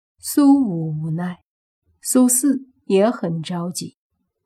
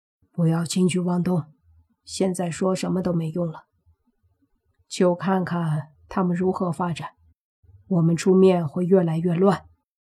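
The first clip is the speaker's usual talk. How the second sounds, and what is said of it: Quiet, hushed speech. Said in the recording (Chinese): “小声说”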